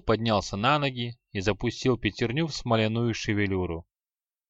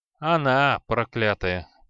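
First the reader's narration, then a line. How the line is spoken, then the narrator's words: Grumbling. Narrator (Russian): пробурчал креол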